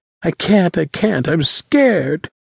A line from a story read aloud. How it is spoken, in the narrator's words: Haley whimpered, her body trembling uncontrollably